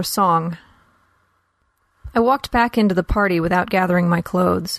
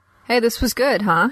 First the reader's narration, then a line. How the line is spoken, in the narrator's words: he said